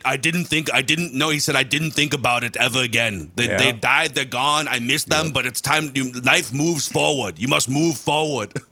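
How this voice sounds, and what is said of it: Imitates another person's voice. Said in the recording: “pretty good impression ... not bad”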